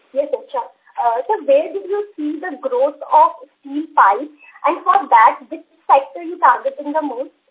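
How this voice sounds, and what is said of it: Overly loud, hard-to-understand phone voice. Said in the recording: “your voice is too loud that we are not able to understand the second line of your question.”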